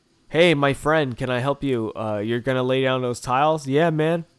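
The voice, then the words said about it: Put-on American accent. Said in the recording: “talk to people in my American ass accent”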